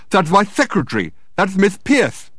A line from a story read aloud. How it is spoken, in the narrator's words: exclaimed Dirk in astonishment